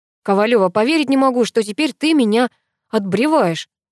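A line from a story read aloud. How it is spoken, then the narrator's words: Angry, from behind. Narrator (Russian): сердито проговорил за спиной друг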